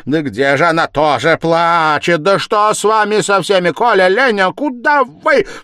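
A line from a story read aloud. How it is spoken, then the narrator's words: Sudden frightened cry. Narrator (Russian): вскрикнула она вдруг в испуге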